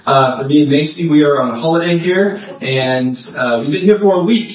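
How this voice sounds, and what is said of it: American accent. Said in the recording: “I know my accent probably sounds weird. I'm from America.”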